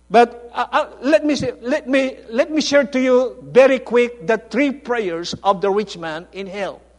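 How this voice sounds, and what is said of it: Filipino-accented English. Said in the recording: “I'm having a hard time to preach in foreign language, because I'm thinking in Filipino ... my accent is different”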